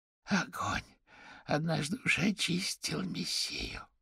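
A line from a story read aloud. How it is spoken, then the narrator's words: Hoarse rasp. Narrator (Russian): прохрипела Дебора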